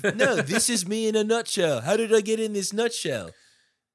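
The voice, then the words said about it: Imitates another person's voice. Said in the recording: “That was a really good impression.”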